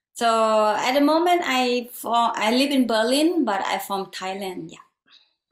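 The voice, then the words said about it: Thai-accented English. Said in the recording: “apologize for my English and my accent... I hope you guys will understand my accent”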